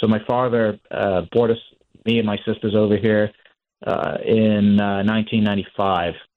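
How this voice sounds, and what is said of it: Slight British accent. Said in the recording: “I actually have a little bit of an accent myself. I was born in the UK.”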